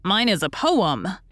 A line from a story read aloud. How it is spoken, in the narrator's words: announced in a tone of triumph